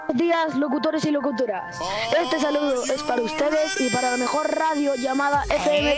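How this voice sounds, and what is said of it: Radio announcer voice. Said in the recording (Spanish): “¡Qué linda voz de locutor radial!”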